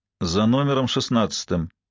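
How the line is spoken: Gloomy reply. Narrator (Russian): мрачно ответила Ма

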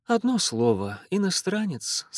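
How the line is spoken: Sighing to herself. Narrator (Russian): сказала она себе и вздохнула

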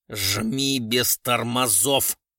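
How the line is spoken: Through gritted teeth. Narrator (Russian): сквозь зубы сказал Гуров

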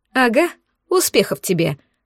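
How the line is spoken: Short laugh. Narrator (Russian): хохотнула я

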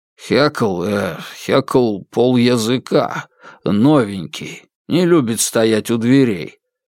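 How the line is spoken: Hurried improvised mumbling. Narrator (Russian): забормотал я, на ходу выдумывая все новые небылицы

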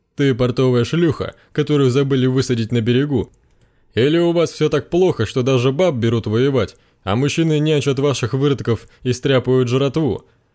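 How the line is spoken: Laughing, amused. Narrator (Russian): Ахшанец засмеялся, развеселенный собственной шуткой

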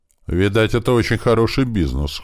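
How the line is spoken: Wry snort. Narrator (Russian): хмыкнул Страйк

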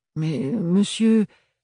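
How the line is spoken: Alarmed stammering seamstress. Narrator (French): bafouilla une confectionneuse avec un coup d'œil alarmé

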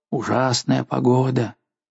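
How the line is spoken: Muttering. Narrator (Russian): Мой проводник бормотал

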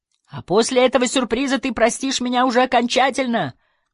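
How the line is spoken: Shout. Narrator (Russian): крикнул

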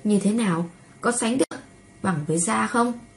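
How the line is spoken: Smiling, playful. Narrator (Vietnamese): Nam Cung Diệp ... khóe môi mỉm cười

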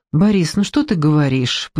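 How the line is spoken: Soft voice. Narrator (Russian): произнесла она мягко

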